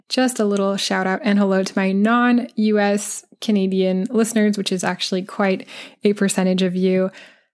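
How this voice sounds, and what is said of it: American English accent. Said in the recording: “I'm going to stick to the American-centric analogies for now, just because that's the accent that I have”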